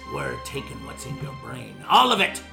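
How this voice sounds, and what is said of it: Put-on pirate accent. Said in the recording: “A pirate? ... That accent.”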